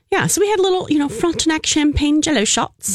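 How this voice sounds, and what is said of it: Put-on British accent. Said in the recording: “Why am I talking in a British accent?”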